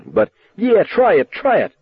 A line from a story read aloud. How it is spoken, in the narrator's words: Buddy shouted at him